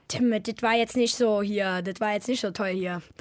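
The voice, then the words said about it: Exaggerated old Berlin dialect. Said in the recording (German): “Ich kann Berlinern natürlich ... auf Berlinerisch ... Also das ist ganz extrem Berlinern. Das ist so, sag ich mal, altberlinerisch”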